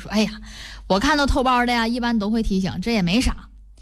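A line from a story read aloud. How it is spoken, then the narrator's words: Smiling, soothing. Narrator (Chinese): 张师傅就说了……笑着对还在愤愤不平的乘客说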